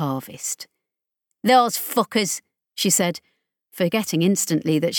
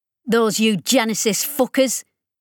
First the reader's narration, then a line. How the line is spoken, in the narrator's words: she snapped